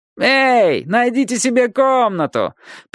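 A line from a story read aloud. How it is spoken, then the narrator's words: Mocking shout. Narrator (Russian): прокричался тот же насмешник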